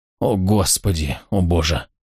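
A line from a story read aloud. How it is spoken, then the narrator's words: Groaning. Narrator (Russian): Фостер простонав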